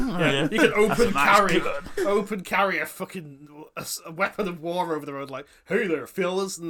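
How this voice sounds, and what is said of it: Usual voice. Nothing is said of it.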